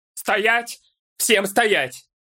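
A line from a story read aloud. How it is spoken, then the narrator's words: Sudden barked command. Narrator (Russian): Рявкнул вдруг Олмер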